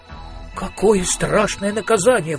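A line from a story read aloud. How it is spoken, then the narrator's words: Exclaiming. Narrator (Russian): воскликнул Маркоу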